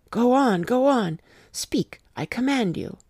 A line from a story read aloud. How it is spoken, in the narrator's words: said Van Helsing in an agonized voice